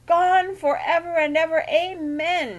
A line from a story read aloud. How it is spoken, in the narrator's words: wailed